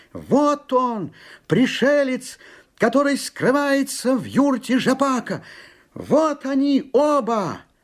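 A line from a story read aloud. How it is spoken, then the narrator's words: Boy shouting nonstop. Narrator (Russian): Парнишка, не умолкая, кричал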